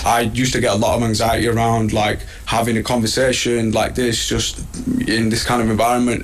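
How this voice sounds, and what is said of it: Thick accent. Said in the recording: “his accent is still so thick”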